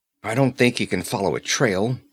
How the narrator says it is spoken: muttered Conan

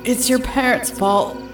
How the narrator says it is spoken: the bad man sobbed

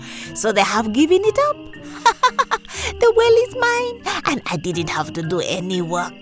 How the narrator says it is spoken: he laughed to himself and said

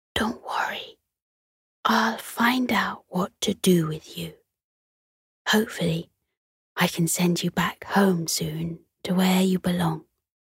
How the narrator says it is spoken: She whispered to the stars

